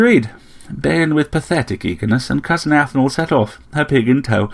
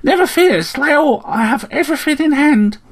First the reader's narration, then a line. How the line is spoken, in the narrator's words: it chirped